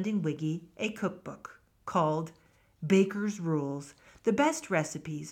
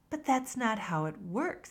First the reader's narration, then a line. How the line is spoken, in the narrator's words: Hilu answered calmly